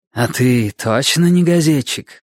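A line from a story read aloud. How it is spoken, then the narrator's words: Low hoarse question. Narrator (Russian): спросила Рошель низким хриплым голосом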